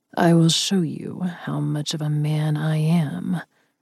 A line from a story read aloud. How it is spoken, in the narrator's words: he purred